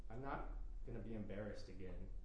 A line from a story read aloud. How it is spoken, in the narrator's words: Ricky says